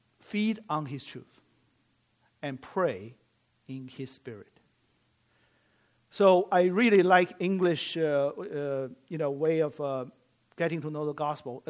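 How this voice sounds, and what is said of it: Chinese-accented English. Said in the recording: “my native tongue is Chinese, right? So you hear I have some accent.”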